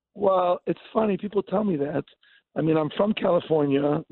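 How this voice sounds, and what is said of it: Israeli-sounding accent. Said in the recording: “You got a great accent ... I'm hearing a beautiful Israeli accent”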